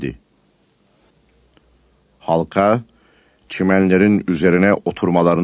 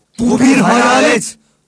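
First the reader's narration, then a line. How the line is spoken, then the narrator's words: Frightened shouting together. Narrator (Turkish): diyerek korkuyla bağırıştılar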